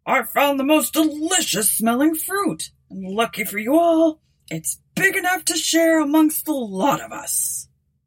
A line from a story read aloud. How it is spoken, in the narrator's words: he hollered